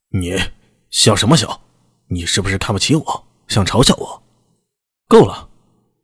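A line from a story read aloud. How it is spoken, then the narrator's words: Angry, embarrassed snapping. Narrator (Chinese): 这下他像是被戳中了心中的痛点，有些恼羞成怒般的跳起来，指着娄师德凶道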